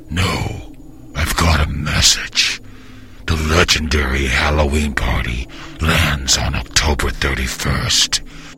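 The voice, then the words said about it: Scary movie phone voice. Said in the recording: “I'm the guy who does the scary movie's phone voice.”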